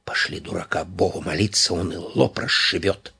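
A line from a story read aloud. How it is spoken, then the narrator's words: Whisper. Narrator (Russian): Цветаев прошептал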